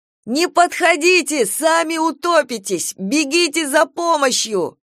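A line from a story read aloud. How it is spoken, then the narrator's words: Breathless hoarse yell. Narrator (Russian): задыхаясь, заорал, то есть прохрипел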